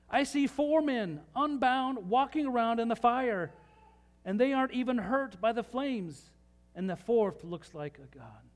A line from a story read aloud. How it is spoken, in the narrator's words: Nebuchadnezzar shouted